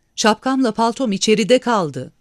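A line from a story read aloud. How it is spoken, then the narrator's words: Shouted. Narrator (Turkish): diye bağırdı Peter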